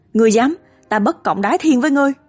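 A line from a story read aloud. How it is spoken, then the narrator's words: Furious dying shout. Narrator (Vietnamese): Hàn Uyên vốn gần chết, nghe vậy lập tức sống lại, quát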